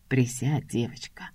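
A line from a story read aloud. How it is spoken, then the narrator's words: Unexpectedly soft, close by. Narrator (Russian): Звучит неожиданно мягко и рядом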